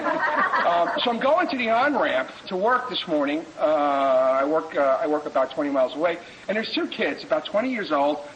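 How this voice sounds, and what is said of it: Non-West Coast American accent. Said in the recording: “I'm not from the West Coast. I don't know if you can tell from my accent, but I ain't local.”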